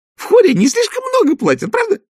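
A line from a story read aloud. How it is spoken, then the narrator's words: Shrill squeal. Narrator (Russian): взвизгнула она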